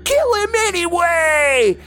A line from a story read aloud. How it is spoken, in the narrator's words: someone screamed